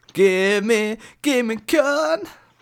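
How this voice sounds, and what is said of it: Bad imitation of a rock singer. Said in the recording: “That was a terrible impression of uh, "Give Me Shelter,"”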